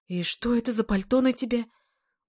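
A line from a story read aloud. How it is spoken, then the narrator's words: Alarmed voice. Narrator (Russian): уже встревоженным голосом заключила она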